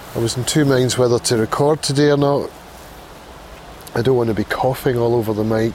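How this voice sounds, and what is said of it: Congested voice with a cold. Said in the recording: “I've got a cold.”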